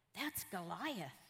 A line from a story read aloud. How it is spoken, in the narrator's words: the soldiers exclaimed eagerly